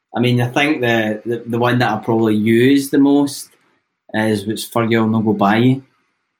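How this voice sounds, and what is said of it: Strong Lanarkshire Scottish accent. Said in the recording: “I've got quite a strong Lanarkshire accent”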